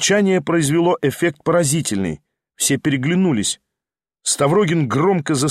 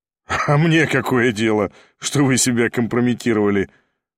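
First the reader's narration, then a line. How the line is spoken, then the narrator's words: Laughing. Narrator (Russian): засмеялся Ставрогин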